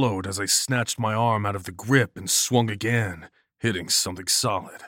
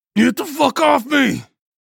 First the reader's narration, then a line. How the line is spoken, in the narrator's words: I roared